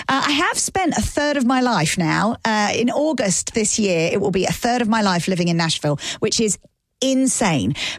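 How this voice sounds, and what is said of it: British accent. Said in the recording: “from my accent, you can tell that I'm not from here ... I'm from the UK”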